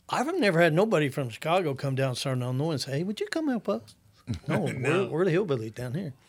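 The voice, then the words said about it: Rural southern Illinois accent. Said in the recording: “I'm a certain Illinois boy. You can tell by my accent. I ain't from Chicago.”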